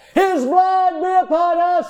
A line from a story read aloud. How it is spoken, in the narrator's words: the people cried out